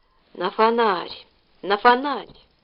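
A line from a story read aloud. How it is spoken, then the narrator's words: Lisping whisper, older woman. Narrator (Russian): шепелявый шепот генеральши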